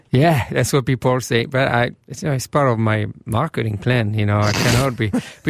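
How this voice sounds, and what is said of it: French accent. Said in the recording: “this French accent”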